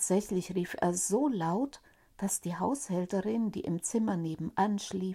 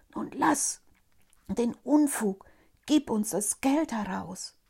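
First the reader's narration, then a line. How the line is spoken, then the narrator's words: Group whispering quietly. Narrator (German): Sie flüsterten ihm leise zu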